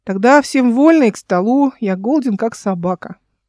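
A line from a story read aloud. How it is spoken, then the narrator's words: Deep bass voice. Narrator (Russian): пробасил Павел Терентьевич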